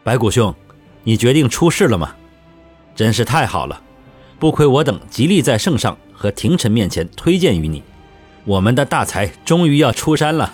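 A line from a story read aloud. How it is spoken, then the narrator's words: Loud overjoyed exclamation. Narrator (Chinese): 吴干中喜不自胜地大声说道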